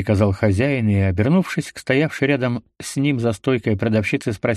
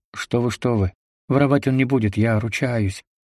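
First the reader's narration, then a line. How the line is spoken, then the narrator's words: Frightened mother. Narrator (Russian): испуганно сказала мать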